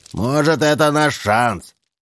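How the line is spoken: Yelling. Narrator (Russian): орал Чарли

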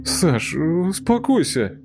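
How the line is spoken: Mumbled. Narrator (Russian): промямлил Тимоха

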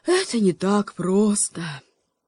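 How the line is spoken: Raven sighing. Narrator (Russian): вздохнул ворон

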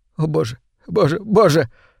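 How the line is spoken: Sobbing. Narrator (Russian): всхлипывал он

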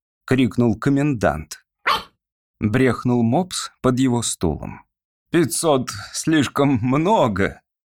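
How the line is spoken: Gentle objection. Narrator (Russian): мягко возразил оратор

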